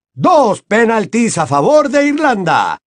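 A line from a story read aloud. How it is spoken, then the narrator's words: Shouted. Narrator (Spanish): gritó Bachmann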